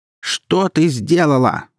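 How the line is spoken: Yelling mother. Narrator (Russian): заорала мать

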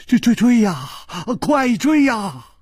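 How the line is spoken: Terrified trembling voice. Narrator (Chinese): 金半花早已经是面无人色了，他颤声说

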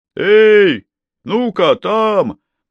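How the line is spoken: Sergeant's roar. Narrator (Russian): проревел сержант

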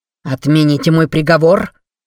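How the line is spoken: Barked. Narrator (Russian): рявкнул Креван

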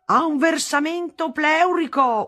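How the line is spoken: Shouted. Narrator (Italian): urlava

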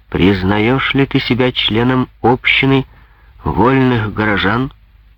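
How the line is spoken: Plain. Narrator (Russian): спросил король Алтынный

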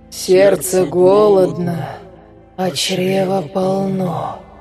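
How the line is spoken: Slow savoring drawl. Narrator (Russian): протянула Лика, точно пробуя каждое слово на вкус

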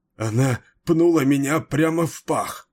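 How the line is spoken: Breathless, strained. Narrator (Russian): задыхаясь, выдавил он

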